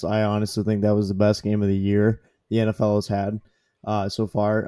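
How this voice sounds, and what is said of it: Strained, worn-out voice. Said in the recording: “My voice is kind of gone.”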